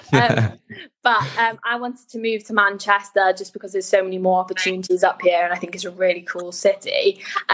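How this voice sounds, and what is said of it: Welsh accent. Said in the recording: “I'm originally from Swansea. I don't know if you can tell from my accent.”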